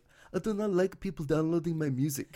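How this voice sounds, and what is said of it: Put-on French-Canadian accent. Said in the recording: “she's got that French-Canadian accent”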